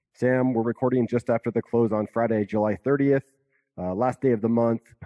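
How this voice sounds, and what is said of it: Scratchy, congested voice from a cold. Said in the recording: “I'm fighting a little bit of a summer cold here. Hopefully it's not too scratchy ... it sounds like you got the sniffles there, the summer sniffles.”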